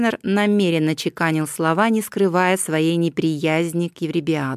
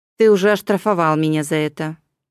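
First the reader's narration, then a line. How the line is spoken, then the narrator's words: Gloomy remark. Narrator (Russian): мрачно обронил Еврибиад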